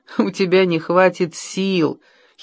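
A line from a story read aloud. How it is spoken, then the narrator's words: Giggled. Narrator (Russian): хихикнула она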